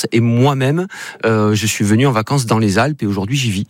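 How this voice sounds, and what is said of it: Slight regional accent. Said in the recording (French): “vous avez un petit accent”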